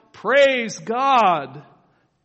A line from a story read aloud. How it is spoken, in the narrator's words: everyone around him would hear him shout